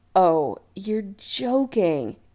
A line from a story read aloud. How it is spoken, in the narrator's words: Adam moaned in horror